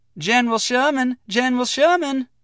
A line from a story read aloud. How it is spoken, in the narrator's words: a girl's voice cried out